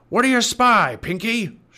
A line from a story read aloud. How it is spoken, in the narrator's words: shouted Cap'n Bones